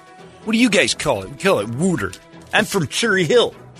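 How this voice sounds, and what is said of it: Philadelphia-area accent. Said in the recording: “Your accent is worse than Boston.”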